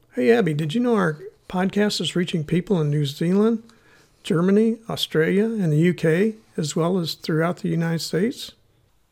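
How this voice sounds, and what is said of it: Missouri accent. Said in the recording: “my Missouri accent”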